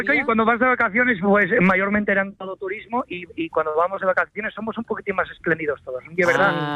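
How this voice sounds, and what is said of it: Asturian Spanish accent. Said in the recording (Spanish): “el acento asturiano y es normal que me salga”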